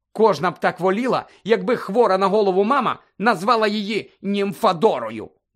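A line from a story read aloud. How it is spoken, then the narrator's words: Angry grumble. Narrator (Ukrainian): буркнула сердито Тонкс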